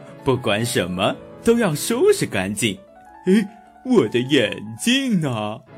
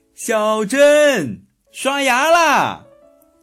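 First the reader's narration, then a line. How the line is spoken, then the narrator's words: Mother shouting. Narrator (Chinese): 妈妈在边上大喊道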